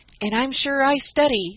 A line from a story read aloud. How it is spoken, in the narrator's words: added Dan, with a groan